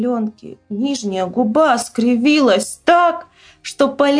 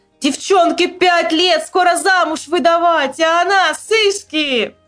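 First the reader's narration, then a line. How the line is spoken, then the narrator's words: Yelling. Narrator (Russian): Я орал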